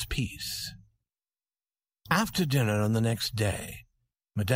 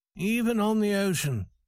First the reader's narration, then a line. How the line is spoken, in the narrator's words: said Farrington sadly